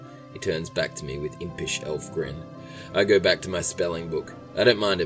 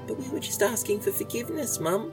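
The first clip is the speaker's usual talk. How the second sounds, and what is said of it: Cute baby voice. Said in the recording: “cute baby voice.”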